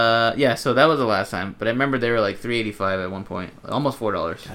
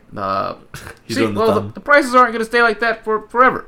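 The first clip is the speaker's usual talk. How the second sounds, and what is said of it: Imitates another person's voice. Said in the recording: “do an Obama impression ... That was pretty good ... get into character ... That's pretty good, huh?”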